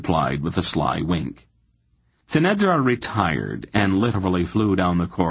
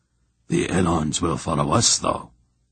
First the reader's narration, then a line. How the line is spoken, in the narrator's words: King Hohag said quietly